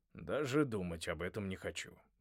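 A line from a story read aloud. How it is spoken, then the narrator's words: Grumbling. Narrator (Russian): проворчал Джонни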